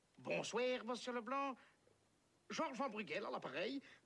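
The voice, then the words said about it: Put-on Belgian French accent. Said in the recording (French): “Je prends l'accent belge ?”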